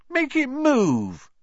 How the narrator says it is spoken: he whined at his father

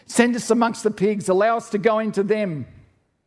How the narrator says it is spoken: the demons begged Jesus

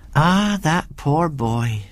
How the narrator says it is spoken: sighed Mrs

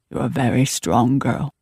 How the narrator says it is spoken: she murmured

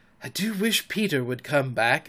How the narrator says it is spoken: every one of them said nervously

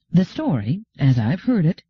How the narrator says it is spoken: said Gladia calmly,

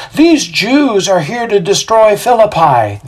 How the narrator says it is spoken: they yell out

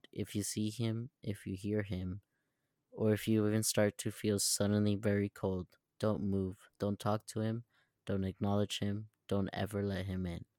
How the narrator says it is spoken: He leaned in very close and whispered

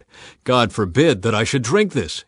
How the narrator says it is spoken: he exclaimed

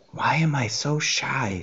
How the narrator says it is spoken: She whispered

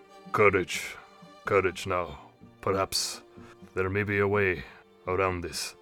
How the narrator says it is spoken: just says quietly

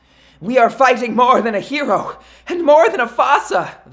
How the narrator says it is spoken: they cried

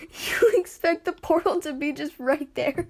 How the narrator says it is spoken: he asked between laughs

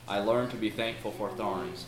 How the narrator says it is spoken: answered the clerk quietly

